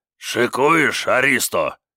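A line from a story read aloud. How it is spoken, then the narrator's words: Husky growl, big man. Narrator (Russian): сипловатым голосом прорычал здоровенный бритоголовый детина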